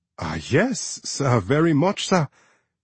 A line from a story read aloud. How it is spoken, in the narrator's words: he said, his voice escalating once more